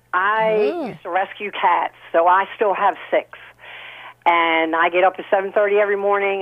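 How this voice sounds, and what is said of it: Rough, sick-sounding voice. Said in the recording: “pardon my voice. I'm getting over cold.”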